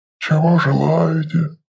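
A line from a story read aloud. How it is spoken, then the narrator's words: Soft low rumble. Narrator (Russian): мягко прогудел Лофкрак, хозяин магазина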